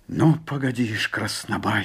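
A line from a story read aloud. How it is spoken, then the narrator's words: Through gritted teeth. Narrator (Russian): сквозь зубы проговорил Жапак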